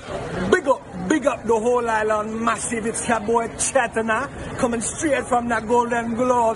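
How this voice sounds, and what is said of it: Put-on Jamaican patois accent. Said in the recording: “Why why is Tom Hanks' ch- son Chet speaking ... It's patois? ... patois ... The accent”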